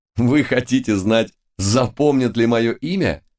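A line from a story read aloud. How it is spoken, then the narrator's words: Hearty laughter. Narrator (Russian): От души рассмеялся Лис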